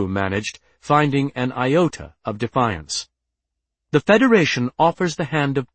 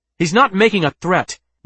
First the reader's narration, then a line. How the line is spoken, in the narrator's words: Wheaton blurted